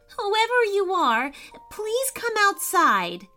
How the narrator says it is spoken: cried Maddy

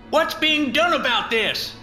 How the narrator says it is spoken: Charlie McRae shouts out

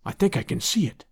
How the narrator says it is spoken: he whispered

